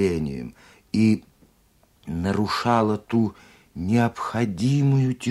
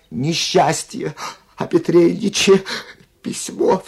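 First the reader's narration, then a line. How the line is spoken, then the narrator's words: Sobbing speech. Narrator (Russian): всхлипнув, проговорила она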